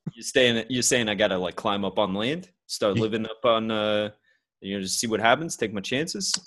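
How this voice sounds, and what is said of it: Put-on Brooklyn accent. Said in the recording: “why do we both have a Brooklyn accent?”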